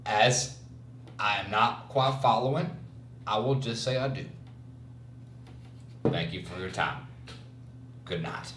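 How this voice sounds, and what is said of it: Friendly Southern American accent. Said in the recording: “he had a friendly Southern accent”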